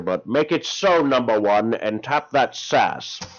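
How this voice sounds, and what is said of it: Bad imitation, haggard voice. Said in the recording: “going to do a really bad impersonation of Patrick Stewart because I am sounding very haggard”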